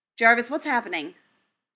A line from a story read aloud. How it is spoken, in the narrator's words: Tony snapped